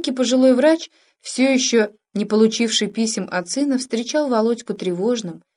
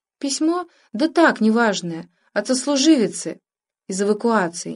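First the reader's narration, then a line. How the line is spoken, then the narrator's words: Mother's unsure reply. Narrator (Russian): неуверенно ответила мать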